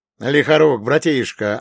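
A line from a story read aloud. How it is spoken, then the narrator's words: Joyful telepathic yell. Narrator (Russian): обрадованно завопил я на всех ментальных диапазонах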